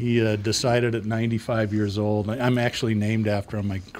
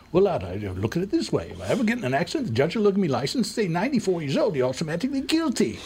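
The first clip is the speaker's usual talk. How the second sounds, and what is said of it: Put-on English accent, old man. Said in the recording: “Came over from England after World War One, never lost his accent.”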